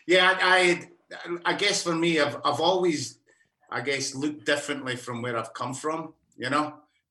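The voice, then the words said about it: Australian accent. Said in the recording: “I'm from Alice Springs, as you can tell by the accent.”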